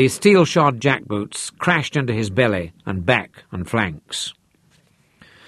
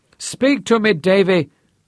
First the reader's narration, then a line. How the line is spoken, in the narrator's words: she wailed